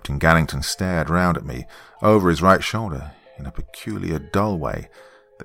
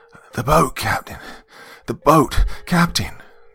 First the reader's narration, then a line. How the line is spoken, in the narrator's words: I found myself shouting in a queer, frightened voice